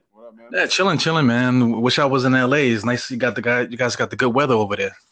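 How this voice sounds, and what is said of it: New York accent. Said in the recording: “You definitely got the New York accent, bro.”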